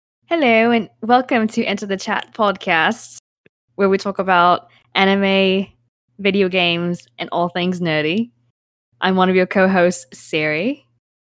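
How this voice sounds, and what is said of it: Attempted British accent, sounds Australian. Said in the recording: “let me try with a British accent this time ... Are you sure that wasn't Australian? ... I've been told that my British accent sounds Australian.”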